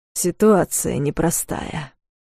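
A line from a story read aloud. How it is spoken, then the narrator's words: Through gritted teeth. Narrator (Russian): процедил Дарс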